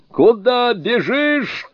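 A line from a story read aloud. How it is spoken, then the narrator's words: Shouting. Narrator (Russian): кричал Сунь-кун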